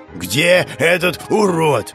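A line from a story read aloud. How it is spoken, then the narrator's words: Growling male voice. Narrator (Russian): Рычал знакомый мужской голос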